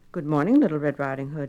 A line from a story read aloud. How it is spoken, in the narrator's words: he said